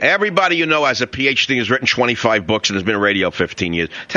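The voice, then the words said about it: New York accent. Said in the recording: “I have a New York accent”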